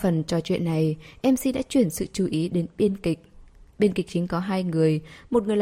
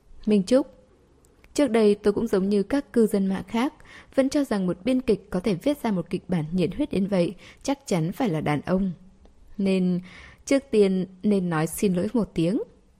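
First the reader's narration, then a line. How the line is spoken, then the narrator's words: Eager smiling question. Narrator (Vietnamese): Anh ta cũng có chút không thể chờ đợi mà mỉm cười hỏi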